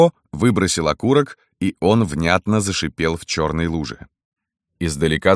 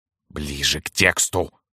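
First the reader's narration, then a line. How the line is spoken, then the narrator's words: Stern. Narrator (Russian): строго сказал Владимир Ильич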